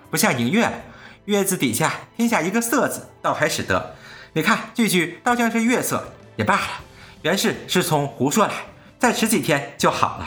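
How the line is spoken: Laughing. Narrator (Chinese): 宝钗笑道

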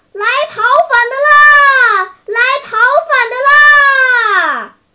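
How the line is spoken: Shouting. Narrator (Chinese): 有人喊

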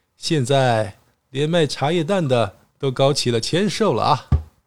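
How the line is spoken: Amazed exclamation. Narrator (Chinese): 一路人惊叹道

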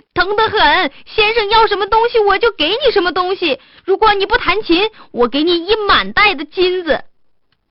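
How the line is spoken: Crying out. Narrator (Chinese): 犹太人叫道

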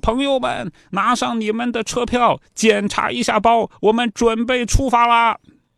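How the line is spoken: Loud public call. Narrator (Chinese): 组织者大声疾呼说

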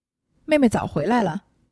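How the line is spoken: Laughing. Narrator (Chinese): 宝玉走到跟前，笑说道

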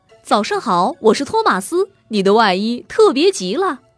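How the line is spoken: Smiling. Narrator (Chinese): 托马斯微笑着说

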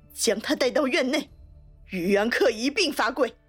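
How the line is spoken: Angry. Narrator (Chinese): 元巡怒道

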